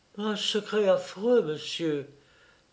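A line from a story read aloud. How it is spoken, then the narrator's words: Sad. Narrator (French): dit tristement Denise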